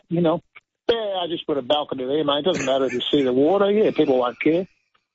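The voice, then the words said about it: Strong put-on Australian accent. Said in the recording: “your Australian accent is on point. It's magnificent.”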